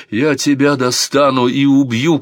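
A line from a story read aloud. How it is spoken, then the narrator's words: Shout. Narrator (Russian): кричал Санчо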